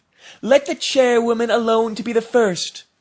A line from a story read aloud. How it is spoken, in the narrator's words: cried